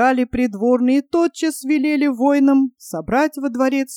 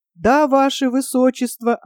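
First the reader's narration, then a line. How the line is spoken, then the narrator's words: Plain. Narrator (Russian): ответили вельможи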